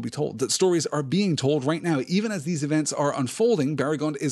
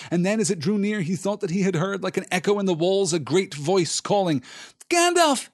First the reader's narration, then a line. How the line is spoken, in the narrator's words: he cried